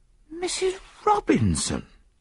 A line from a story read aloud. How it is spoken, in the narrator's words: I gasped